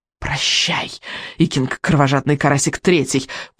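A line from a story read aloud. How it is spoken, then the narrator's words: Whisper. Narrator (Russian): прошептал Элвин вероломный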